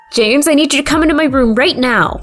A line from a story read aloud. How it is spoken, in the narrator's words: Amy shouted urgently